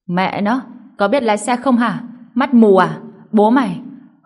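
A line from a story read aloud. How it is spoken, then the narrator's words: Panting, roaring. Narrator (Vietnamese): thở hổn hển gầm thét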